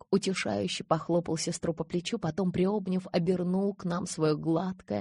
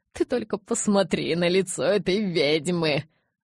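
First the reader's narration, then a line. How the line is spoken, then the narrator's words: Stifled laugh. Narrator (Russian): сдавленно хохотнул тот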